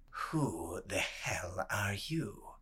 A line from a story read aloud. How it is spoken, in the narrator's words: he murmured